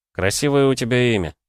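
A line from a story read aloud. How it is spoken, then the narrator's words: Sigh. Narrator (Russian): вздохнул я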